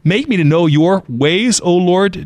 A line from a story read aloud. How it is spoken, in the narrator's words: David says